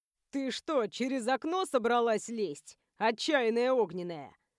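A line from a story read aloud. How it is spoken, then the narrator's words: Snort. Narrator (Russian): хмыкнул друг Адама Цироп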